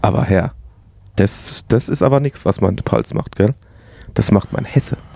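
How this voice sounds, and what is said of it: Palatinate German dialect. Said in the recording (German): “was redet hier für ein Dialekt? ... Pelzig”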